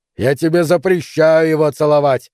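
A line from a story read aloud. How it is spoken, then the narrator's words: Yelling. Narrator (Russian): заорал Нейл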